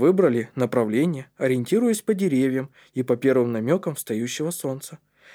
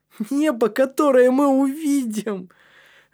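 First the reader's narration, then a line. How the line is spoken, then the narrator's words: Laughing. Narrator (Russian): рассмеялся Матиас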